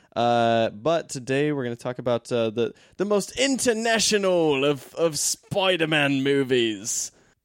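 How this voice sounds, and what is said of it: Put-on Australian accent. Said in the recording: “What accent was that? ... this one sounds Australian.”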